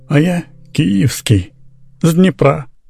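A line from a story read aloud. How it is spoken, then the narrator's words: Soft tender singsong. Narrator (Russian): сказал это тихо, ласково, точно пропел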